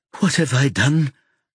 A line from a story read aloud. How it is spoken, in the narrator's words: Jackie asks in a frightened voice